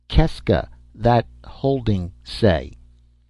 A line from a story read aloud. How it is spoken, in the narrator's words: I said slowly with a patience